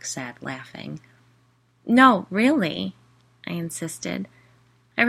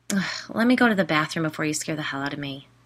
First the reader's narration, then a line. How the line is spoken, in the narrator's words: I muttered